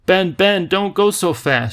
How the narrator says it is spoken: she cried

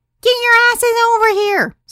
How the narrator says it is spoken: Sarah shouted

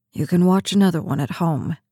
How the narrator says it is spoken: he mumbled

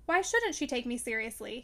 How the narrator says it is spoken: demanded sharply

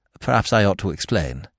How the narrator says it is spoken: said Freddy

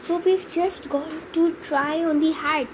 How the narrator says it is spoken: Ron whispered to Harry

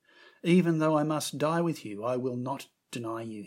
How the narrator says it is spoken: he said

